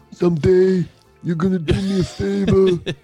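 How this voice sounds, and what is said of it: Imitates another person's voice. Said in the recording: “My Brando was pretty good.”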